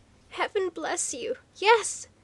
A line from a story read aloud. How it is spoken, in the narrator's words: came the reply in half-choked tones